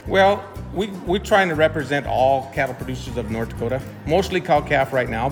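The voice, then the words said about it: North Dakota accent. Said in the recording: “Got the accent too, huh? ... Oh yeah, we got the North Dakota accent.”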